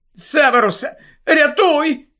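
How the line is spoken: Cracked, frightened. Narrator (Ukrainian): жінка промовила надтріснутим, переляканим голосом

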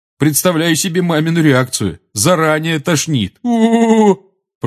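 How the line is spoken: Disgusted groan. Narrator (Russian): простонал Джордж, с отвращением

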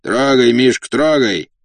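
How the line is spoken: Shout. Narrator (Russian): крикнул кучеру

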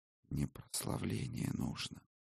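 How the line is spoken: Barely audible mouthing. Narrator (Russian): одними губами едва слышно сказал Арис

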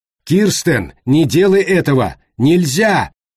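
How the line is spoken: Yelling. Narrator (Russian): заорал Брэд Джозефсон

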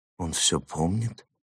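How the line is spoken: Quiet question. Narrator (Russian): тихо спросил Рисон

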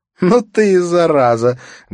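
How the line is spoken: Loud laughter. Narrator (Russian): громко расхохоталась Катрина

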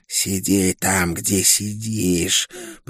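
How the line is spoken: Hiss. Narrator (Russian): прошипела Окул

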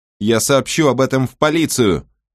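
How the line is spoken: Shouting out. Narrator (Russian): выкрикнула Мэгги

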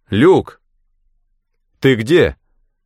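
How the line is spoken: Shouting. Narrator (Russian): крикнул я

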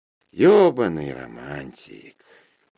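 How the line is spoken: Sighing. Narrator (Russian): вздохнула Мара

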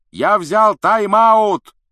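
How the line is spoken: Shouting. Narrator (Russian): прокричал Вуд

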